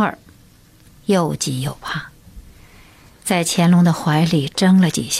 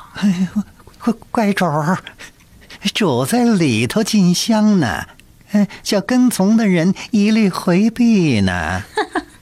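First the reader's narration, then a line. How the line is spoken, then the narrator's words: Odd-voiced, ingratiating laugh. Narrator (Chinese): 高无庸变腔怪调的陪着笑说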